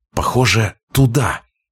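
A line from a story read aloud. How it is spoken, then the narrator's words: Hissed. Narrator (Russian): прошипела она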